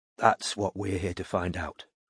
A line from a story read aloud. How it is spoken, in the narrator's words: Robin murmured back